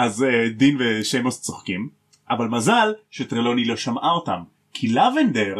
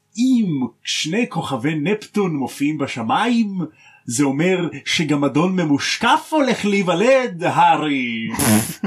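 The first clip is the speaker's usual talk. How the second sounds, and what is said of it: Imitates another person's voice. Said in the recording (Hebrew): “בחיקוי של טרלוני”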